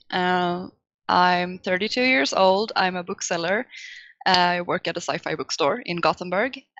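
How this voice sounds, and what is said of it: Swedish accent. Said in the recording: “I'm from Sweden, so that's the accent you're hearing.”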